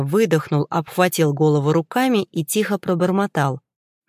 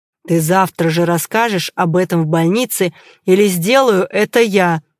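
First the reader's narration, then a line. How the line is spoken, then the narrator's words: Through gritted teeth. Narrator (Russian): процедил я сквозь зубы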